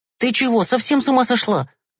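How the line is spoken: Angry shout. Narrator (Russian): гневно закричал Гешка

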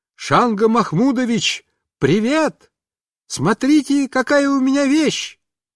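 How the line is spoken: Loud shout. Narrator (Russian): я громко закричал

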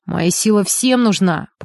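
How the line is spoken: Booming voice over phone. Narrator (Russian): прогудел Макар в трубку

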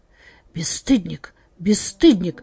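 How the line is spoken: Reproachful whisper. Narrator (Russian): зашептала она укоризненно

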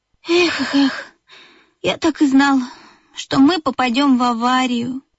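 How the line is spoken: Sighed. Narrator (Russian): вздохнул Бип

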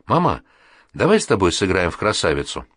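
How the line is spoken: Calm, changed voice. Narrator (Russian): Нинка из седьмой квартиры совершенно другим, спокойным голосом сказала

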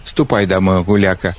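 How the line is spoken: Old man grumbling. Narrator (Russian): ворчал старик

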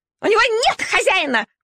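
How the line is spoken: Shrill squeal. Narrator (Russian): пронзительно взвизгнула шайба

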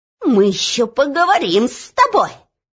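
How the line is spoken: Angry squeak, minister. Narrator (Russian): злобно пропищал министр

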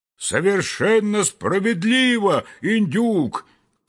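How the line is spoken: Loud group shout. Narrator (Russian): крикнули все разом так громко

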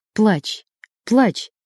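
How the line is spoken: Quiet. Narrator (Russian): тихо сказал он

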